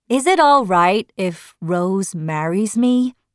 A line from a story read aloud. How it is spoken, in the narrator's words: Simon asked